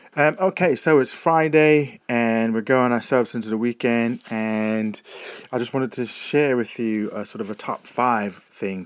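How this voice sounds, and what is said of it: American English accent. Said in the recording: “making fun of my accent that I don't speak English, I speak American.”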